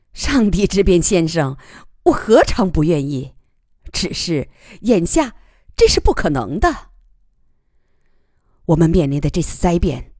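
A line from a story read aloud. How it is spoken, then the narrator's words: Wry, bitter. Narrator (Chinese): 乔治苦笑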